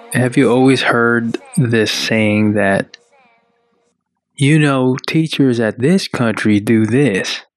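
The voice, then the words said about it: Put-on Southern American accent. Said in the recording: “Why is that saying in a Southern accent? ... Was that a Southern accent? ... Yes.”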